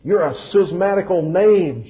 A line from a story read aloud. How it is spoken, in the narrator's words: Judge Jeffreys roared out